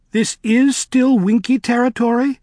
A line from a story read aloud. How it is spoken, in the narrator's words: said the girl anxiously